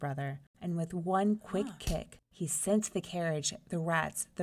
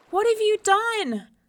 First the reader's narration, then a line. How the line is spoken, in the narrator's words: cried Miko